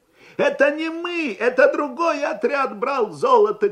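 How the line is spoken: Offended shout. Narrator (Russian): крикнул один из меньшевиков обиженным голосом

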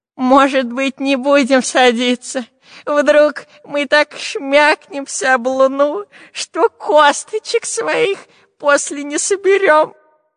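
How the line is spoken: Whining. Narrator (Russian): захныкал длинноносый

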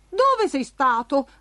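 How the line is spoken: Blurted out. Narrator (Italian): sbottò Giacomino

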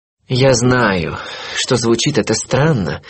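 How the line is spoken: Sighing. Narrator (Russian): вздохнул он

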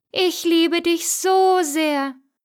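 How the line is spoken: Beautiful woman calling out. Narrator (German): rief die Schöne

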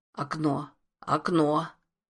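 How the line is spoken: Muttered. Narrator (Russian): Тот пробормотал

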